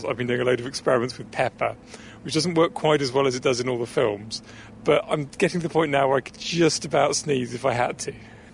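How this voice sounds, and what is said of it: Congested, stuffy-nosed voice. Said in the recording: “As you might be able to tell from my voice, and I can certainly tell from the way my nose feels”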